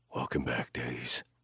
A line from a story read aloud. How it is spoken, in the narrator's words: I whispered